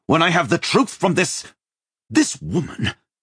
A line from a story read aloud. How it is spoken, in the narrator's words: Joshua spat